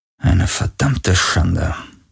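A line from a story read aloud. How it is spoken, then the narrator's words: Muttering. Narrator (German): murmelte er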